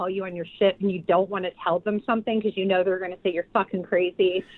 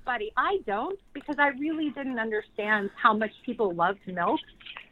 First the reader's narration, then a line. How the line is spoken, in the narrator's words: And I started laughing, and I'm like